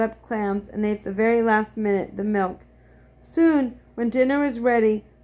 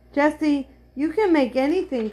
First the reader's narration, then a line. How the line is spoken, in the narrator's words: cried Henry